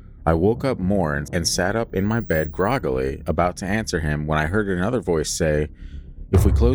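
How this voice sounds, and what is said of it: Usual voice. Nothing is said of it.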